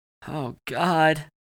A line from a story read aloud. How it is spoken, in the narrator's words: Chance moaned